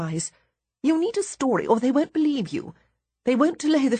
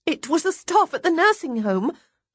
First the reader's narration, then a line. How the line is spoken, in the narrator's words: I blurt out in desperation